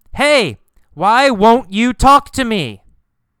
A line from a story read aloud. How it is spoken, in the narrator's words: He yells